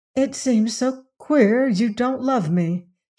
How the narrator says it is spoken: she murmured

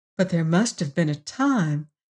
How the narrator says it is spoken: insinuated Emma McChesney gently

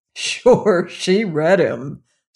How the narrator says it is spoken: snorted the father

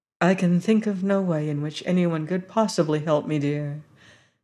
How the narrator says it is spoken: said the harvester gently

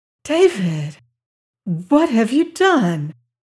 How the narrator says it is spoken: gasped the amazed girl

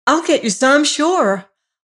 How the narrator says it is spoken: wildly promised his handmaiden

